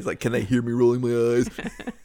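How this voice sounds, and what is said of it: Imitates another person's voice. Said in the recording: “You just gave me a voice. ... is that what you're going with for your voice of me?”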